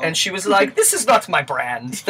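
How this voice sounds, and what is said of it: Bad, gruff imitation of a female singer. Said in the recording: “That's a very bad Charo impression. ... Charo is like a 55-year-old dock worker.”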